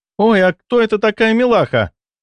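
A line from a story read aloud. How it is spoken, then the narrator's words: Exclamation. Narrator (Russian): воскликнула Кенна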